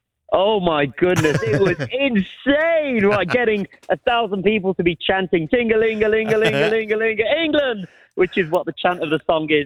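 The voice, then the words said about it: Breathless, overexcited speech. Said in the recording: “I've like ran out of breath. I'm on such a high ... apologies if I'm getting a little bit too overexcited”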